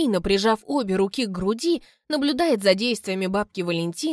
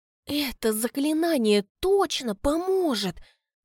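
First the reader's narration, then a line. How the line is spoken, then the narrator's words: Reverent whisper, young woman. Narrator (Russian): спрашивает девица благоговейным шепотом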